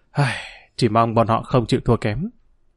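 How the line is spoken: Soft sigh. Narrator (Vietnamese): Dương Lăng thôi cười, hắn nghiêng đầu nhìn màn mưa bụi khẽ thở dài

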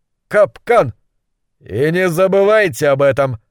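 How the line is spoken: Barking. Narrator (Russian): рявкнул Гуталин

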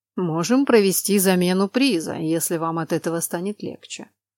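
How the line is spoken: Indifferent. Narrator (Russian): безразличным тоном предложил он

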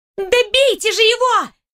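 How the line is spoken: Shrill squeal. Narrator (Russian): Взвизгнула светловолосая девушка

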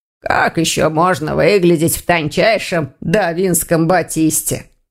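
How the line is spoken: Grumbled. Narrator (Russian): проворчал Вардван

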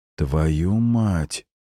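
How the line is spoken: Exhaled curse. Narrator (Russian): выдохнул Эдмунд

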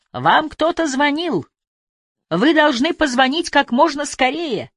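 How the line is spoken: Shouting. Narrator (Russian): Ньюгрен крикнул

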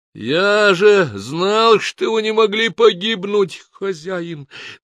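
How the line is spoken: Moaning. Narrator (Russian): наконец простонал Сангак

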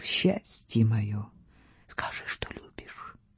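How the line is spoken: Blissful whisper. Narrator (Russian): Вальдемар будучи на седьмом небе от счастья, шептал

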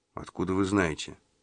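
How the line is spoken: Plain question. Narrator (Russian): спросил Магоцци

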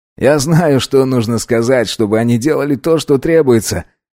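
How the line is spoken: Laughing. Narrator (Russian): рассмеялся пятый

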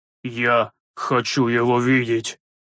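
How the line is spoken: Hoarse wheeze. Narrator (Russian): просипел священник

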